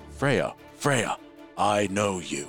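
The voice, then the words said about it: Staticky machine character voice. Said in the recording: “it's like static noise coming from the machine ... I might do that voice differently”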